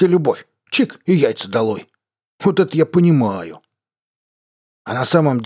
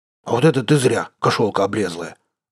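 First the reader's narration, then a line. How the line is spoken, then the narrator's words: Growling. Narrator (Russian): рыкнул Кобздох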